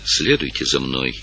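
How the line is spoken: Quiet. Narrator (Russian): сказала она тихо

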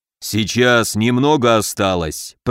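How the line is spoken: Growl through clenched teeth. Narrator (Russian): прорычал Камбулат, сжав зубы

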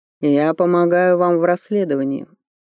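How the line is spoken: Calm. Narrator (Russian): спокойно сказал Норберг

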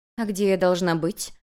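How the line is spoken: Soft, curious question. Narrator (Russian): заинтересовавшись, мягко спросила Юнь-Юнь

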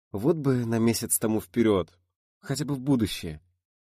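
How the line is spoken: Dreamy sigh. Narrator (Russian): вздохнула Едвига мечтательно

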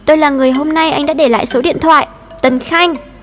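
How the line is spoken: Loud shout. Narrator (Vietnamese): Tôi hét to

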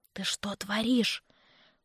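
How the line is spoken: Whispering. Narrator (Russian): прошептала я

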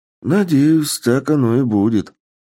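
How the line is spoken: Sighing. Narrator (Russian): вздохнул президент

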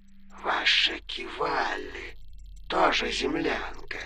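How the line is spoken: Hiss. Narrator (Russian): прошипел лорд Аях

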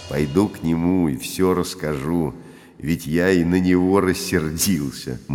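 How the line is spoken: Gloomy. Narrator (Russian): мрачно сказал Петр

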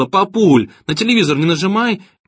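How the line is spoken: Sudden cry. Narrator (Russian): Она вскрикнула

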